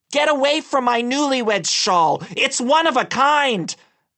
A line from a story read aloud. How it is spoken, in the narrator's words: I screamed louder, this time even more intimidating